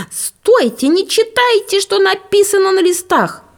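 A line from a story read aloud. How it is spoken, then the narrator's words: Shouted. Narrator (Russian): закричала Стефания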